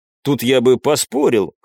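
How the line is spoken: Silent inner snort. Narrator (Russian): хмыкнул я про себя

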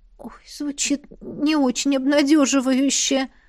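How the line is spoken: Dejected sigh. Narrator (Russian): тоскливо вздохнула я

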